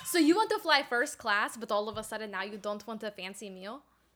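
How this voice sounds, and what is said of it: Put-on accent. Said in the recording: “I forgot what my accent was.”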